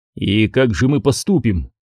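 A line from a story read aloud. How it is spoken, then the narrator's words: Plain. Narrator (Russian): спросил Скордж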